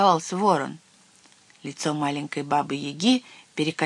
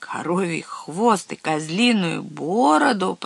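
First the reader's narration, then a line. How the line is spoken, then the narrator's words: Moaning raven. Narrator (Russian): простонал ворон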